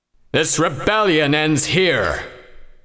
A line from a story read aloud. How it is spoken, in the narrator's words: The voice boomed